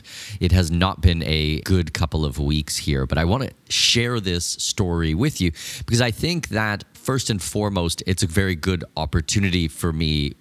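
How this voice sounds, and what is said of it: Rough, raw hoarse voice. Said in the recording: “my voice is pretty rough, pretty raw at the moment”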